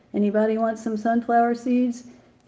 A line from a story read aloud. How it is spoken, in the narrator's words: Magnet shouted